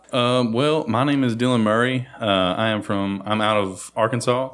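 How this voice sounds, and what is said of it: Arkansas accent. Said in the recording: “I couldn't tell from that accent... The luxurious Arkansas accent.”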